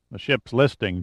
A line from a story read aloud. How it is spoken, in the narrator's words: Giordino announced flatly